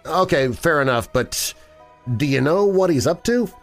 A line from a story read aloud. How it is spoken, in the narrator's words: Lee laughed